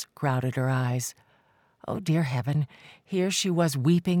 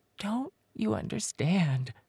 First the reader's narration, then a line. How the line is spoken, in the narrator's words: whispered, her voice cracking